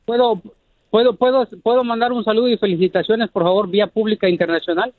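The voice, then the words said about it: Formal radio announcer voice. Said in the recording (Spanish): “Tiene voz de locutor. ... ¡Es locutor este vato! ... Es muy formal.”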